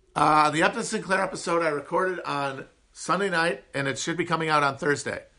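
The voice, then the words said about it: Nasal upper Midwest American accent. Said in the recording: “one of the least appealing American accents, the high nasal twang of the upper Midwest. Just everything pushed through the top of the nose.”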